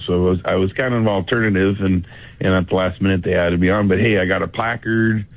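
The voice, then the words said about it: Strained, tired voice. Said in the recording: “Your voice is sounding a little strained, man. Have you just been, like, getting no sleep?”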